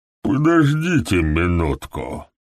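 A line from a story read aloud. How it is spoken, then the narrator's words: Sleepy voice. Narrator (Russian): обратился к нему доктор Фелл сонным голосом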